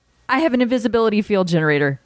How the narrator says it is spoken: Albert blurted out

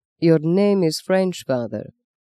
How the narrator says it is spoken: said the Archbishop Papal Legate softly

